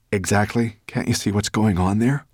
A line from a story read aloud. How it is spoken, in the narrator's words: whispered Ben